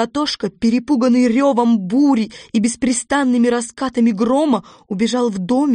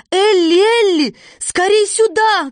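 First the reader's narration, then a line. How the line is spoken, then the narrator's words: Shouting. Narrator (Russian): кричала она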